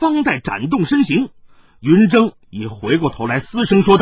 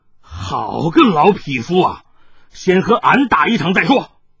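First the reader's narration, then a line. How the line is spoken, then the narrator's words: Angry. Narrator (Chinese): 海大少怒道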